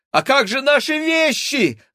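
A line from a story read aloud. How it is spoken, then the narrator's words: Shouted. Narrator (Russian): закричал Максим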